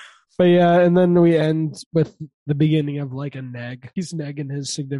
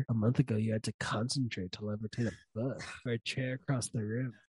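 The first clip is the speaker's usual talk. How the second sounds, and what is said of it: Lazy imitation of another person's voice. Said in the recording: “doing a lazy impression of Dave Franco in The After Party”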